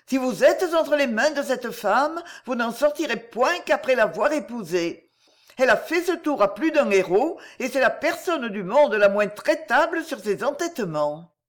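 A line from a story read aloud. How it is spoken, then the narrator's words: Cried out. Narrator (French): s'écria la fausse nymphe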